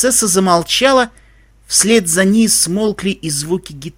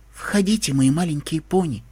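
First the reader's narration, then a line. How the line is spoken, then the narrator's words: Quiet. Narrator (Russian): тихо сказала принцесса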